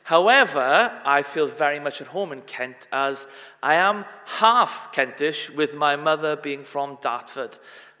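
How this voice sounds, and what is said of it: Welsh accent. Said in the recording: “my accent is a Welsh one.”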